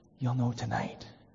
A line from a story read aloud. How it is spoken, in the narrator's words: he said to her tenderly